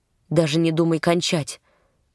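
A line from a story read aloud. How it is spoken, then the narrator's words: Strained voice. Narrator (Russian): сказал он натянутым голосом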